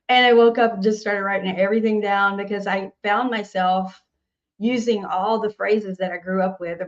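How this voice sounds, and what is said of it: Southern Nashville accent. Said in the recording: “I'm from Nashville and everything I sing kind of comes out country ... because of my accent,”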